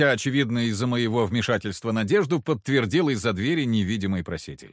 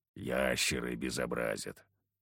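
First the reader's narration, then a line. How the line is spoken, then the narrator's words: Grumbled. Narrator (Russian): буркнул Харисим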